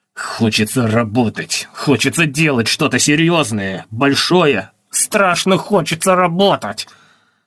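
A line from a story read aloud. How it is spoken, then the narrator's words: Pained, through clenched teeth. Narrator (Russian): Художник сквозь зубы с душевной болью проговорил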